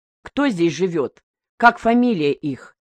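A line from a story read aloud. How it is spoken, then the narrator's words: Plain. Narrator (Russian): спросил Мигдя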